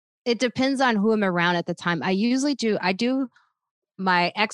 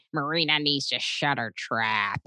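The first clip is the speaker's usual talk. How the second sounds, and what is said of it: Imitates another person's voice. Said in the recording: “I oftentimes impersonate him going”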